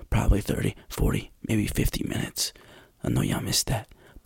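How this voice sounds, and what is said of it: Whispering. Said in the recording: “why am I whispering to you?”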